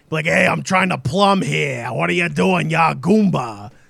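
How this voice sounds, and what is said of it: Thick put-on Brooklyn accent. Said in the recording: “Mario having that thick Brooklyn accent.”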